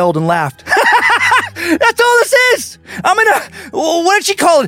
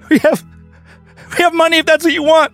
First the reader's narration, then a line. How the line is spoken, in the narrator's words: he whimpered